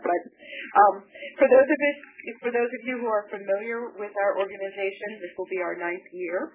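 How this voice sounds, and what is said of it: Hoarse, sick-sounding voice. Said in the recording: “I am sick, so I'm a little hoarse, and it can be difficult to understand because of that.”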